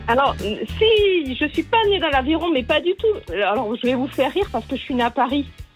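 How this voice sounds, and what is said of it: Southern French accent. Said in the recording (French): “j'ai vécu 33 ans dans le sud de la France. D'où mon accent.”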